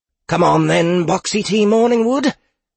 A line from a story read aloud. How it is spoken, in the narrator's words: exclaimed